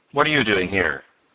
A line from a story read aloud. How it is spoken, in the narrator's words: Professor Hylop asked sharply